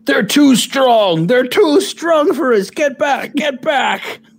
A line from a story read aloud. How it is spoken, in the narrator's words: yell